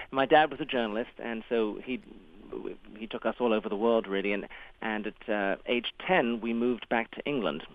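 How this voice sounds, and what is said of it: English accent. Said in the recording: “my formative years were in England, hence the accent seems to be stuck from there”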